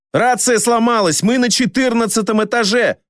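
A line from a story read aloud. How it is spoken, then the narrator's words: Shouted. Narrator (Russian): крикнул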